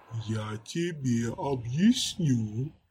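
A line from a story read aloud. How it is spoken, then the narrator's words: Creaky, oddly disrespectful voice behind. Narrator (Russian): проскрипел у него за спиной странно непочтительный голос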